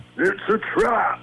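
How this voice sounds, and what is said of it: Star Wars character voice impression. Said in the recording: “your best Star Wars impression ... Let's see if we go Admiral Akbar for you.”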